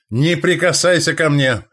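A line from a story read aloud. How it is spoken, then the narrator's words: Barking snap. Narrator (Russian): рявкнул он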